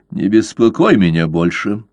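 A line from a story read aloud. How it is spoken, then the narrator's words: Snapping. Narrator (Russian): огрызнулся он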